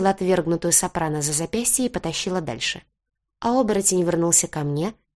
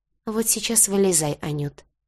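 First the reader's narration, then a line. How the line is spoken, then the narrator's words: Soft. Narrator (Russian): сказал мягко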